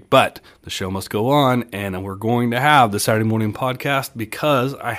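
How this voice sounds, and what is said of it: Scratchy, slightly sick voice. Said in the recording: “the scratchiness in my voice ... a little bit under the weather”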